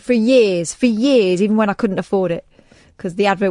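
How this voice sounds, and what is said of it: Usual voice. Nothing is said of it.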